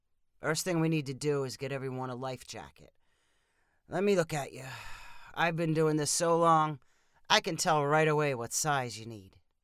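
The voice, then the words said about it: Gravelly older man's character voice. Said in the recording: “asked the man in a gravelly voice”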